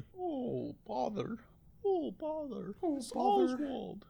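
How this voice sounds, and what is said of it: Winnie the Pooh character voice. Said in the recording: “do a Winnie the Pooh impression?”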